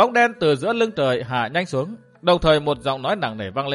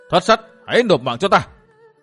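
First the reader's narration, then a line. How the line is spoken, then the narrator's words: Thunderous shout. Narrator (Vietnamese): một tiếng quát vang trời nổi lên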